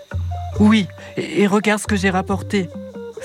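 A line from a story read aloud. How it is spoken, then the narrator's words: Very excited exclamation. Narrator (French): s'écrie Isha très excitée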